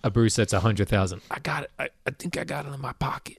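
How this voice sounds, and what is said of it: Imitates another person's voice. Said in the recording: “That's my Bruce impression.”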